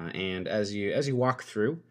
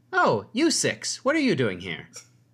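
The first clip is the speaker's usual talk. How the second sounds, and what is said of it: Chipper character voice. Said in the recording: “you hear a chipper voice ... I work hard on these accents. ... Not accents, voices.”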